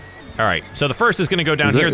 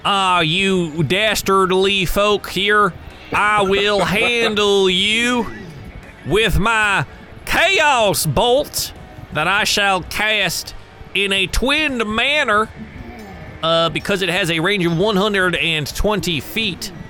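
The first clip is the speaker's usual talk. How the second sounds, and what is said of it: Bad put-on Southern accent. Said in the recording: “Australian accent... No, that was a terrible southern accent.”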